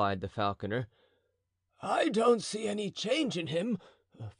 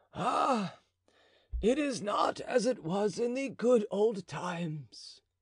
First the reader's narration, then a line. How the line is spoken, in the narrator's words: sighed the falconer